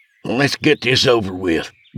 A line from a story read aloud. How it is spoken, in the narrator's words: grumbled Craig